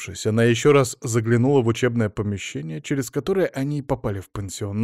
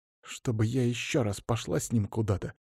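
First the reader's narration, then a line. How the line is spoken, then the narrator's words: Angry, through clenched teeth. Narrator (Russian): Зло процедила Самина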